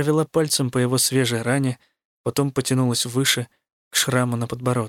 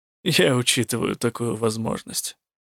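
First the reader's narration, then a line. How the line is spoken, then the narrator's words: Gloomy snort. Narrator (Russian): мрачно хмыкнул Рук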